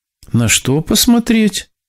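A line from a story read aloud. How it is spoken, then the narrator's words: Laughing young man. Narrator (Russian): хозяйский сын рассмеялся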